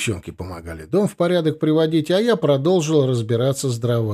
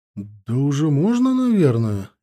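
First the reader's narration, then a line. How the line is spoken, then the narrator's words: Uncertain, grandmother. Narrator (Russian): неуверенно ответила бабушка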